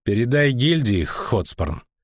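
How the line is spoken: Icy. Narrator (Russian): сказал ледяным тоном атаман крыс

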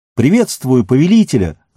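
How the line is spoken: Ringing shout from afar. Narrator (Russian): звонко крикнула она еще издали

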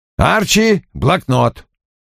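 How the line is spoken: Barked. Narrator (Russian): рявкнул Вульф

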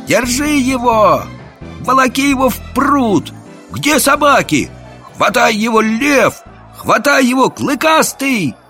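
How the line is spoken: Many voices shouting. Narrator (Russian): Голосов 10 закричало

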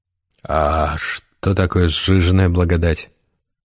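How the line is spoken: Sighing. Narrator (Russian): Гессер вздохнул

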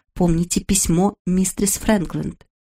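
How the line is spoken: Quiet voice. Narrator (Russian): тихим голосом проговорила

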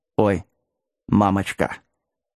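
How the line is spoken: Quiet mumbling. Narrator (Russian): тихо забормотал Вилкинс

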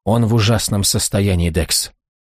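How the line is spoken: Tearful whisper. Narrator (Russian): прошептала со слезами на глазах

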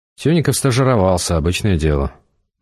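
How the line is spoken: Grumbling. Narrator (Russian): буркнул Эдгар напарнику

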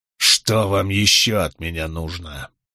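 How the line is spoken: Spiteful words through teeth. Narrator (Russian): процедил Гэвин Буравина с злобным взглядом

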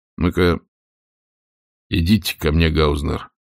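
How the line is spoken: Quiet, from corridor. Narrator (Russian): тихо сказал высокий из коридора

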